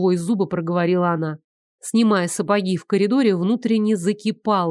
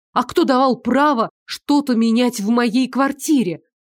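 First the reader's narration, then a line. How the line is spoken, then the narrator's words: Strained, controlled cold voice. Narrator (Russian): Дышать стало гораздо тяжелее, но она не кричала, старалась говорить холодным тоном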